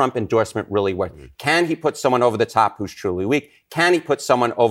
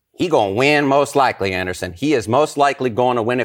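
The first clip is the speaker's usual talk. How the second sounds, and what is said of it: Put-on folksy Southern accent. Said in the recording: “Are you doing a Southern accent for Pennsylvania? ... I think I'm getting folksy”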